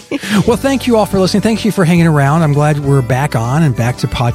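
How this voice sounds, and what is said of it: Usual voice. Nothing is said of it.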